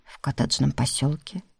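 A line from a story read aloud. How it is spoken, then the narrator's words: Timid guess. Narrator (Russian): робко предположил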